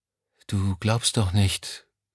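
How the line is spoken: Quiet. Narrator (German): sagte sie schließlich leise

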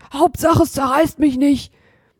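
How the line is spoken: Panting. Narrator (German): keuchte Hotzenplotz

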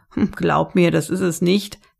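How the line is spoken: Laughing reply. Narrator (German): erwiderte der Wirt und lachte

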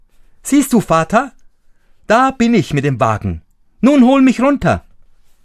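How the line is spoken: Calling out. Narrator (German): rief er ihm zu

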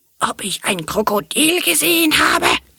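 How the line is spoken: Furious serpent voice. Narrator (German): fragte die doppelt gescheckte, klappernde Riesenschlange mit fürchterlich wütender Stimme

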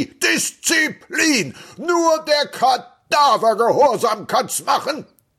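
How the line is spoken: Shouting. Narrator (German): Er schrie

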